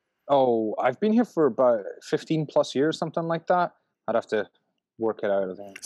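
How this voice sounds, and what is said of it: Speaks with a noticeable foreign accent. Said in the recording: “I'd of course heard your accent.”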